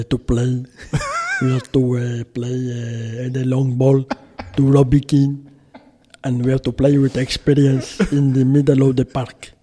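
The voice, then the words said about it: Impression of Giovanni Trapattoni. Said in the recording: “One of my favourites to do is Trap.”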